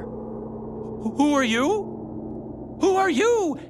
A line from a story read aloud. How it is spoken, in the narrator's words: stammered